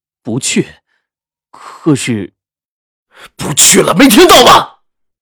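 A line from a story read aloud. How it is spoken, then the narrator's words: Stern, sharp voice. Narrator (Chinese): 赵石南的声音凛厉了起来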